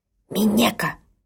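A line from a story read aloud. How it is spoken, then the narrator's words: Angry frightened hoarse hiss. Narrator (Russian): Сердито прошипела мне перепуганная и моментально охрипшая Ока-сан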